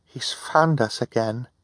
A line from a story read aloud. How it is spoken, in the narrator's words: Violet said, talking quietly so Hal could not hear them